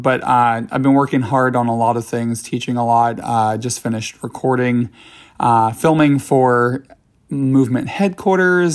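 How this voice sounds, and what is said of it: Slightly crackly, strained voice. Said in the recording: “I'm losing my voice a little bit. So if my voice sounds a little bit crackly right now”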